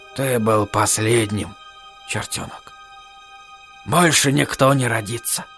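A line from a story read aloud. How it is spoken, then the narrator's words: Teacher's whisper. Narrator (Russian): шепнул учитель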